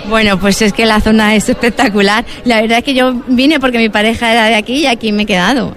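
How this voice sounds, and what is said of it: Andalusian Huelva accent. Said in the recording (Spanish): “Por tu acento, llevas mucho tiempo en Huelva ... tú tienes tu acento de Huelva”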